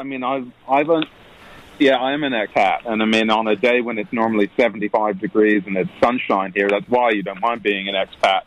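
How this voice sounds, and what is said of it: Non-American accent. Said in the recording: “You don't sound American, actually. Are you a bona fide American?”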